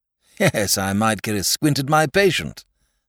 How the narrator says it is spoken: laughed the doctor

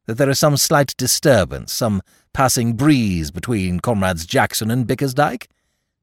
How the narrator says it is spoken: Bristow chuckled

